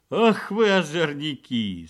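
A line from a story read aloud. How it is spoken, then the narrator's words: Rich man laughing. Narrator (Russian): смеялся богач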